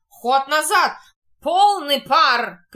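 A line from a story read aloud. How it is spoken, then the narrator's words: Thunderous alarmed shout. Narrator (Russian): кричит громовым голосом пьянчуга, разом протрезвев при виде опасности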